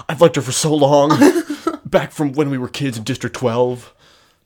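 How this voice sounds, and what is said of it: Good impression of Gale. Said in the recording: “That's such a good Gale impression.”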